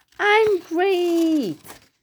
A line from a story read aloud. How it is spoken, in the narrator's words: He'd boast, shouting